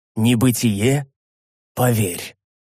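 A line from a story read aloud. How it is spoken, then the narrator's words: Plain. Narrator (Russian): ответил я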